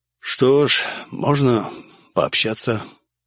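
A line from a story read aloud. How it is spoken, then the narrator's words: Muffled reply. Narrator (Russian): глухо ответил я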